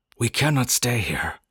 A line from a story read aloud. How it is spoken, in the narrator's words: Nuskat told us excitedly